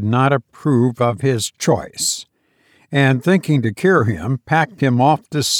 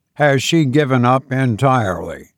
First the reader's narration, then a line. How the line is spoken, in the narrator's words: I asked